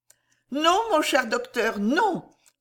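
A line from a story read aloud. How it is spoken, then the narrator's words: Exclaimed. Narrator (French): s'écria-t-elle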